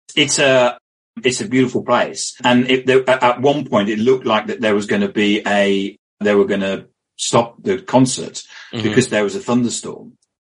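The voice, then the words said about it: British accent. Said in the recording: “because of my accent, all I have to do in America is turn around and talk to somebody, and people want to talk to me because they think I'm James Bond”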